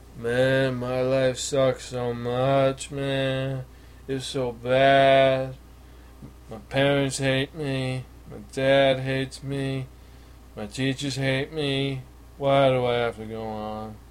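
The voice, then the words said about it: Mopey emo teenager voice. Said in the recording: “the shittiest Brando impersonation possibly on the planet ... that was an emo impersonation ... And it was fairly accurate”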